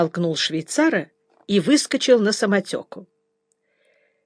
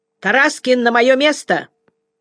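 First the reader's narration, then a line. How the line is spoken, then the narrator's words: Loud shout. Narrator (Russian): Я крикнул громко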